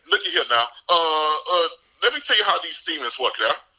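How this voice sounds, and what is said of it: Strong regional accent comes through. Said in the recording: “there go my accent.”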